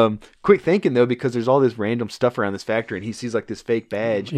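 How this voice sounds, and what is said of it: Usual voice. Nothing is said of it.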